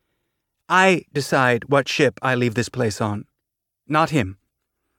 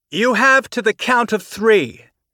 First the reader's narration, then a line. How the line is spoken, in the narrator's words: Tanaka shouted